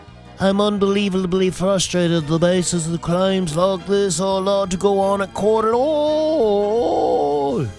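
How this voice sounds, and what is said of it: Poor imitation with British accent. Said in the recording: “a very bad, bad, bad impression of Ed Sheeran ... I can only do that British accent”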